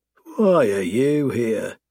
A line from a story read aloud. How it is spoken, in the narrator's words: I sneer for the last time